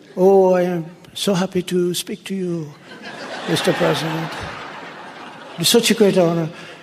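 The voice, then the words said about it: Imitated French accent. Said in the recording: “Beautiful accent. I love their accent. I could never imitate that beautiful French accent.”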